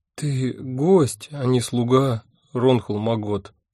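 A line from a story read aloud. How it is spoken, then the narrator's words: Unhappy voice. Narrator (Russian): несчастным голосом сказала она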